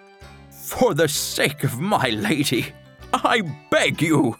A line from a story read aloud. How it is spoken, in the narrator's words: sobbed the knight